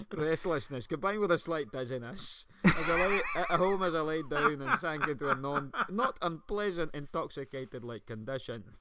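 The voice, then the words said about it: Put-on Scottish accent. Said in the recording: “I'm doing the wrong accent, it was Scottish ... do it Scottish.”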